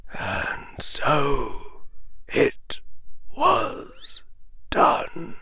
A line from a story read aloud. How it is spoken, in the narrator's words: Albus Dumbledore said, almost in a whisper